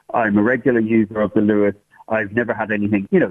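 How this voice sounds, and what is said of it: English accent. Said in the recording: “you could probably hear from the accent that I'm from England originally”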